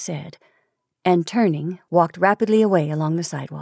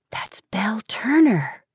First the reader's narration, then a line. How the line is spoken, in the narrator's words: whispered Helen